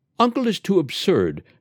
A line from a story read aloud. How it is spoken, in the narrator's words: cried Ruby to Crook